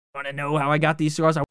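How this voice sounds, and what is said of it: Weak imitation of the Joker's voice. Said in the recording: “I sound like the fucking the Joker when he goes all crazy. ... I wish I could do a better Joker impression.”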